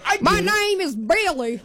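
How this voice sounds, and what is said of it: Put-on southern drawl, mock male voice. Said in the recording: “do you think I could sound like a man? ... I always want to do a southern drawl when I turn into a man.”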